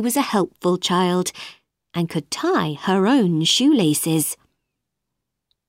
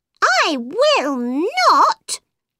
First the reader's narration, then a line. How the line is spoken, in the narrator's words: cried the mouse